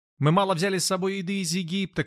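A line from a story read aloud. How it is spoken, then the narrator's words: Several voices shouting. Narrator (Russian): кричали некоторые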